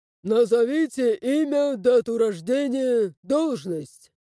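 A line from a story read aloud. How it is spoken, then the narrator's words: Bark. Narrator (Russian): рявкнул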